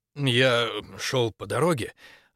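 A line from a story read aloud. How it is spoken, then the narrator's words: Husky voice. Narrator (Russian): начал он с хрипотцой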